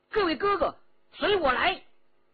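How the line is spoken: Shouting. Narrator (Chinese): 叫道

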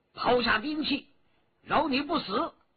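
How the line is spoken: Shouted. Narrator (Chinese): 徐天红叫道

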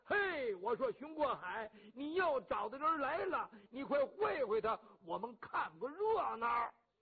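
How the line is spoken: Shouting. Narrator (Chinese): 齐无远先喊了

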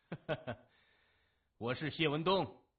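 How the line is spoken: Clear ringing laugh. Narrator (Chinese): 他朗声一笑说

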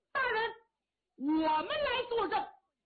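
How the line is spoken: Loud shout. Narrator (Chinese): 有人高喊

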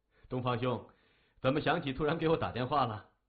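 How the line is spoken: Polite. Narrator (Chinese): 谢文东心中暗笑，嘴上却客气地说

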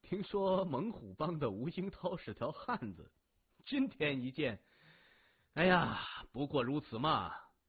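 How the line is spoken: Young man, laughing. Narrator (Chinese): 年轻人笑着说

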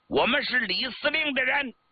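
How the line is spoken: Loud answer. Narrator (Chinese): 红49团工兵营的营长叫金德牛…高声答道

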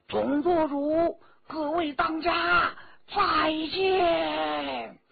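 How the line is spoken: Group calling out. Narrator (Chinese): 红花会会众叫道

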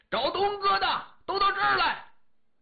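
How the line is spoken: Very loud shout. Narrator (Chinese): 声音之大，全操场随处可闻

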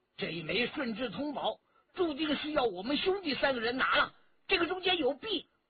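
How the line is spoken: Loud. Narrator (Chinese): 顾金彪大声地说

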